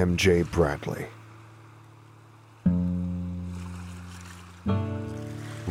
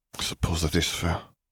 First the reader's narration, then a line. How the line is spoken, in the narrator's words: sighed